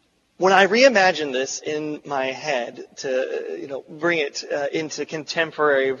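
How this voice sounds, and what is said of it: Usual voice. Nothing is said of it.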